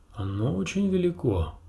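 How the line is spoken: Irritated curt remark. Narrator (Russian): раздраженно бросил он

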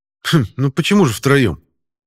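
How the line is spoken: Snorting. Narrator (Russian): хмыкнул Пашка

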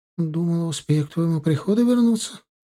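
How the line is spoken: Guilty apologetic voice. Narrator (Russian): начала виноватым голосом оправдываться она

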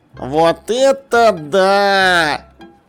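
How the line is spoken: Delighted drawl. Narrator (Russian): восторженно протянул Шнопс

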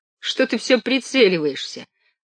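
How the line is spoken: Laughing. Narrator (Russian): рассмеялся Левка

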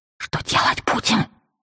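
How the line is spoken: Whispered question. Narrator (Russian): шепотом осведомилась я

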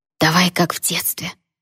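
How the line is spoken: Eager whisper. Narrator (Russian): с азартом прошептал Джун

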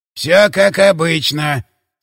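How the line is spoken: Creaky voice, announcing. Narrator (Russian): скрипучим голосом объявил урод

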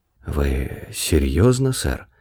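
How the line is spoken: Whisper in sudden silence. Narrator (Russian): прошептал он во внезапно наступившей тишине

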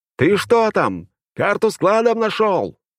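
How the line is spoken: Shout. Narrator (Russian): крикнул я ему

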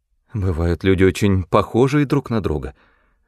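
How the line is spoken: Trembling voice. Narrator (Russian): сказала она дрогнувшим голосом

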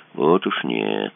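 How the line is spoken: Quiet. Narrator (Russian): тихо сказал Кацуба

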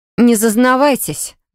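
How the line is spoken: Growled. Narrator (Russian): рыкнула я

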